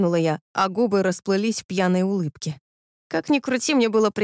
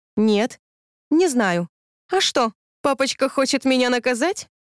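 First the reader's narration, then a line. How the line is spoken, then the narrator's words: Giggle. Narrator (Russian): хихикнула я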